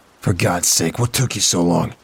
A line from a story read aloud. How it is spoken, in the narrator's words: He spat out